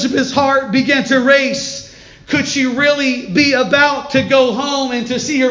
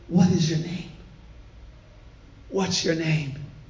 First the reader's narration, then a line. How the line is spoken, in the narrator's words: an officer asked her ever so gently